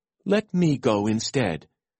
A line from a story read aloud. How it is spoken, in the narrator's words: exclaimed